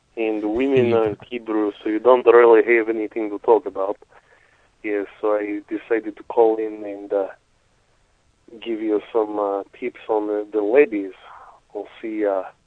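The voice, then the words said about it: Heavy foreign accent, Eastern European-sounding. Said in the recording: “This is clearly an Eastern European accent ... I think it sounds like a Middle Eastern guy ... This is what Serbians sound like ... Like Slobodan Borat. Milosevic. That's how he talks.”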